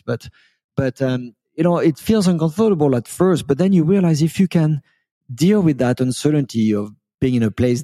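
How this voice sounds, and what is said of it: French accent. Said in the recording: “you probably picked up from my accent ... I kept my French accent”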